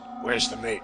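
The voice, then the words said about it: Low, quiet voice. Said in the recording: “he said in a low voice.”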